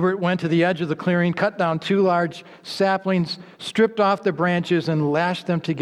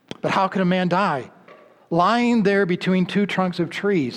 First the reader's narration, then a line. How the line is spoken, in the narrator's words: asked the chief